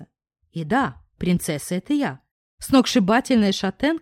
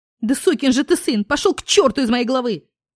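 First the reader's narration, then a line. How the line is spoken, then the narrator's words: Shouted over loud music. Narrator (Russian): выкрикнула, соревнуясь в громкости с музыкой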